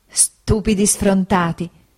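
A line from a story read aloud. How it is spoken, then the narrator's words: Laughing mother exclaiming. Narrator (Italian): esclamò mia madre ridendo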